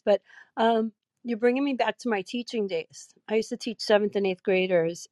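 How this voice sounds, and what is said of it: Weak, strained sick-sounding voice. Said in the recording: “This COVID thing doesn't, you know, keeps your voice. It keeps your energy. ... excuse my voice.”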